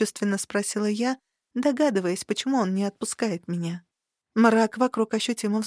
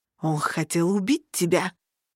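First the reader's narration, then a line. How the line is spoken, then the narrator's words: Hissing creature. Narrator (Russian): прошипело нечто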